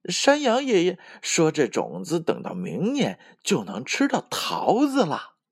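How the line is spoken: Smiling. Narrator (Chinese): 小猴子微笑着说

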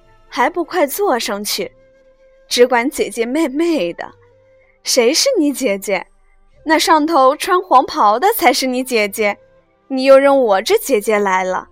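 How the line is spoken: Quiet laughing. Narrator (Chinese): 宝钗亦悄悄地笑道

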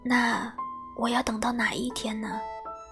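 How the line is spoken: Low, tearful voice. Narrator (Chinese): 一颗眼泪滴了下来，他低声地说

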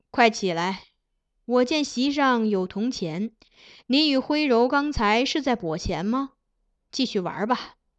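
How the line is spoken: Smiling. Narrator (Chinese): 金上与苗昭荣相视而笑，转言道

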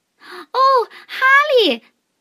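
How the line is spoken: Group shouting. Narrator (Chinese): 他们叫道

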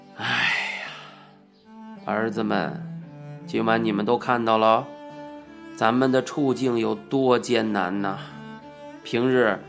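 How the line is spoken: Sighing admonition. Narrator (Chinese): 叹了一口气，告诫我们道

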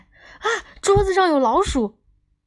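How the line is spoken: Sudden loud cry. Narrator (Chinese): 忽然大叫起来

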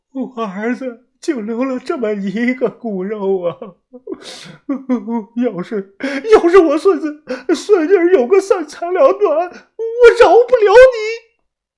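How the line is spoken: Grief-stricken sobbing. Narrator (Chinese): 大姐不停的抽泣，显得是悲痛万分

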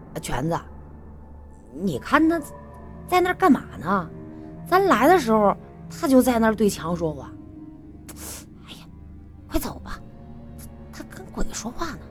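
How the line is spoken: Friend finally blurting out. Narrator (Chinese): 他的朋友终于忍不住了，就……开口说

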